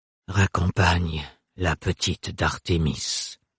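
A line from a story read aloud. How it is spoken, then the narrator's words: Murmured. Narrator (French): murmura Farouk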